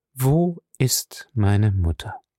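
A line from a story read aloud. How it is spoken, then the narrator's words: Slow, clear speech. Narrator (German): Sie sprach jedes Wort deutlich und langsam aus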